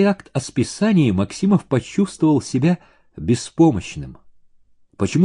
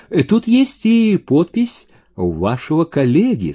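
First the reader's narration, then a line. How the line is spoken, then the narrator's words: Plain. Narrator (Russian): сказал Ерчук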